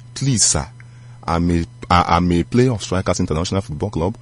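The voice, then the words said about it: Calm voice. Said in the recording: “In a calm voice,”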